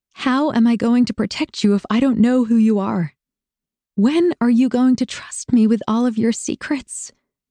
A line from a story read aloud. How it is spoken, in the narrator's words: I asked, my voice shaking almost as much as I was